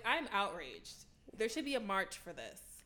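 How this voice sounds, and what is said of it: Put-on white woman voice. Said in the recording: “in your white woman voice.”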